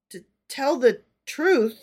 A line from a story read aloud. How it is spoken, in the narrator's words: he faltered